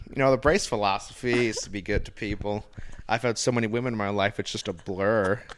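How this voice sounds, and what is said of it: Imitated character voice, Michigan accent. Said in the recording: “you do gigolo brace really well ... brace is just so easy. It's just like a Michigan accent.”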